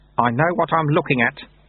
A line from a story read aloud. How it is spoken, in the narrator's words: said Lutze grimly